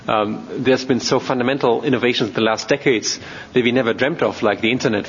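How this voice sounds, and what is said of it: German accent. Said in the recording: “as you can hear from my accent, I'm German”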